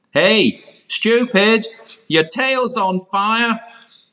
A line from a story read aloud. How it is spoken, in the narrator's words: the farmer shouted